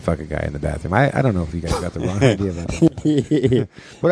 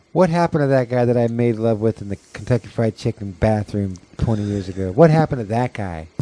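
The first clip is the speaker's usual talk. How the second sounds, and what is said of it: Imitates another person's voice. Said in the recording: “That was my imitation of Ricky.”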